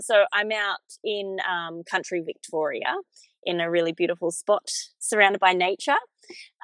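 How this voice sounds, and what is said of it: Australian accent. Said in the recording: “where I live first is in Australia, if you can't tell from my accent.”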